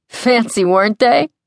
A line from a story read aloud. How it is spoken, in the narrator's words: Sam laughs